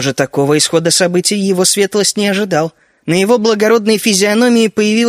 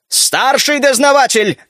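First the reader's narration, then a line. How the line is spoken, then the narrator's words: Count barking. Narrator (Russian): рявкнул граф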